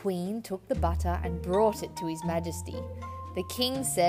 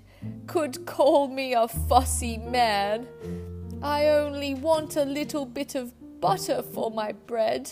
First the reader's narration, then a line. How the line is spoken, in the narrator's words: he whimpered